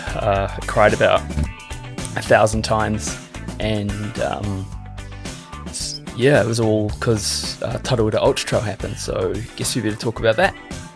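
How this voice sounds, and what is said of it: Croaky voice. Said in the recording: “my voice is croaky”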